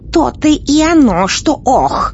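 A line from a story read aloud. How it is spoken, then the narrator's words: Angry exclamation, witch. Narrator (Russian): сердито воскликнула колдунья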